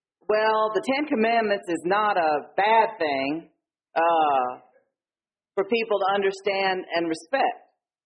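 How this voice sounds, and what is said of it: Attempted Georgia Southern accent. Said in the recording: “I'm going to try to do a Georgia accent, but it's not going to be good.”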